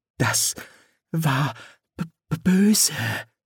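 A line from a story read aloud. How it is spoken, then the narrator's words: Whisper. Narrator (German): flüsterte Reißer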